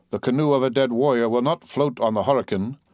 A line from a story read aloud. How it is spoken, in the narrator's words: returned the savage gloomily